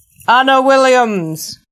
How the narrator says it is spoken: boomed a voice

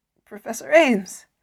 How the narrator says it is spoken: croaked, throat dry

